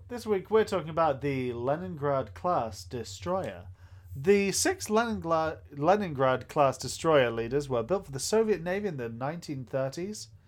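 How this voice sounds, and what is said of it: Announcer-style radio voice. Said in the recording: “your radio voice”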